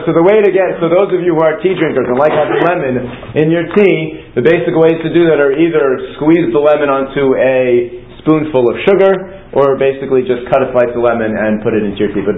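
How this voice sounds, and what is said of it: Speaking very fast. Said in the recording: “am I moving too fast? I feel like I'm talking very fast.”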